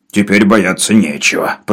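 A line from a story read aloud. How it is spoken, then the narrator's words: Grumble. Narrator (Russian): проворчал Навага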